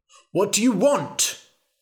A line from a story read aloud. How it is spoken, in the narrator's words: shouted the king